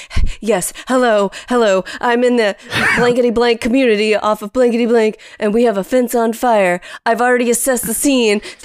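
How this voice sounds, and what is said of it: Imitates another person's voice. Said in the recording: “really good impression of me”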